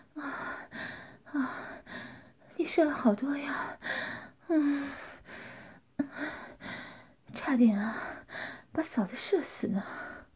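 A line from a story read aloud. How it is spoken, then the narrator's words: Panting, breathless. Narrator (Chinese): 罗琳气喘吁吁地说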